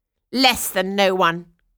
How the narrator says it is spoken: cried the stepsisters

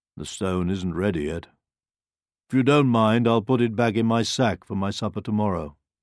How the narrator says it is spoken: sighed

